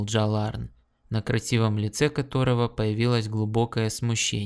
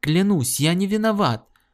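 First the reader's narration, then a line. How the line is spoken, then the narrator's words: Pleading. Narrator (Russian): взмолился Гордон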